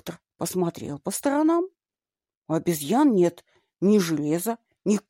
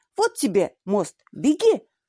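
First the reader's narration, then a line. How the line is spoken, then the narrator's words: Group shouting. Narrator (Russian): закричали они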